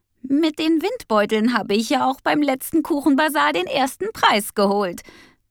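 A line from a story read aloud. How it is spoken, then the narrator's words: Laughing. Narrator (German): meinte lachend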